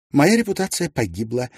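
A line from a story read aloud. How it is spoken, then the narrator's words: Cheerful. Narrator (Russian): весело проговорила она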